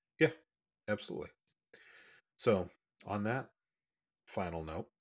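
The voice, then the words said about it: Sultry radio DJ voice. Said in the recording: “sexy DJ voice”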